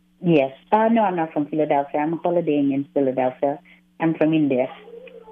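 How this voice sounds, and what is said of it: Noticeable foreign accent. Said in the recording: “So I hear your accent.”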